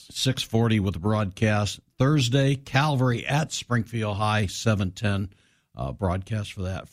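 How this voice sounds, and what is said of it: Hoarse, failing voice. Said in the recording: “Before I lose my voice completely”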